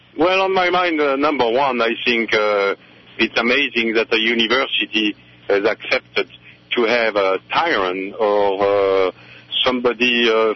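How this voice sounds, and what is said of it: Foreign accent. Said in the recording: “Another person with an accent”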